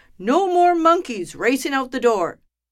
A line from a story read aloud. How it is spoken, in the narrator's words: the doctor roared